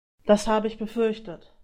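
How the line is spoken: Sighing. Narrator (German): Grüffel seufzte

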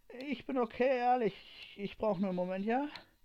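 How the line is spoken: Weary, shaken reply. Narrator (German): antwortete Ray nur angeschlagen

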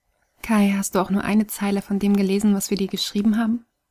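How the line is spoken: Plain. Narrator (German): fragte

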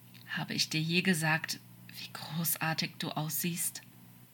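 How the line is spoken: Quiet question. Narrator (German): fragte Crawley leise

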